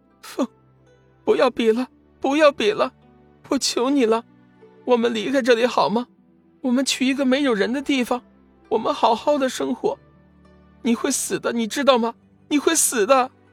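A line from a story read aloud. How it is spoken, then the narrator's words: Weeping. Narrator (Chinese): 静茹哭泣道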